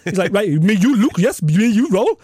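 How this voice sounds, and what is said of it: Put-on Russian Dagestani accent. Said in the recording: “that is an unbelievable Russian accent ... tremendous ... my Dagestan uh, perfect accent”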